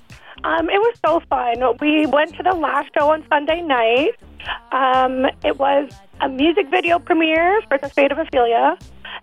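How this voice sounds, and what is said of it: Slightly hoarse, partly lost voice. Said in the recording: “I still lost my voice a little bit. It was a sing-along.”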